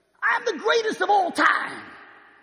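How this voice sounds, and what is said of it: Imitates another person's voice. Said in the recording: “who am I imitating? ... I'm not saying it's going to be good ... Muhammad Ali”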